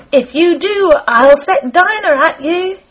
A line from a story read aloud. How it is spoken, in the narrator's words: Alice called out as loud as she could